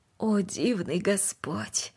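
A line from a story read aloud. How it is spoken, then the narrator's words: Quiet speech. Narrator (Russian): тихо произнесла она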